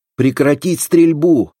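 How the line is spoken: Shouting with all strength. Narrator (Russian): закричал он, что из сил

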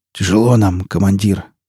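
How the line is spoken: Hoarse wheeze. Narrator (Russian): прохрипел

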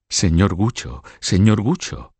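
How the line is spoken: Murmur. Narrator (Spanish): murmuró María

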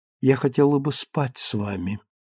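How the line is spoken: Tender. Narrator (Russian): нежно сказала она

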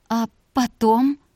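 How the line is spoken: Near moan. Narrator (Russian): почти простонала она

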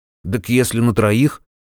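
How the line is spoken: Muttering. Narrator (Russian): пробормотал он

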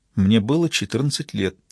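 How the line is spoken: Quiet. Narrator (Russian): тихо проговорила

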